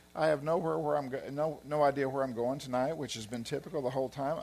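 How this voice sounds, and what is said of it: Southern US Arkansas accent. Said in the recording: “I can talk like you guys. I'm from Arkansas, so I have an accent too. ... I've lived outside of Arkansas for 20 something years, and I still sound like this.”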